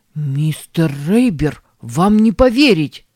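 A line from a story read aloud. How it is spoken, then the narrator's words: Exclaimed. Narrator (Russian): воскликнул Хай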